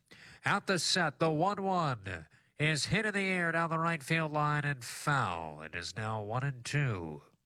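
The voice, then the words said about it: Old-timey radio announcer voice. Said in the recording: “I'm going to do an old-timey radio voice.”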